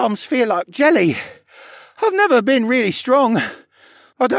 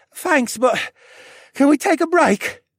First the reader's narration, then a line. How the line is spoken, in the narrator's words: He panted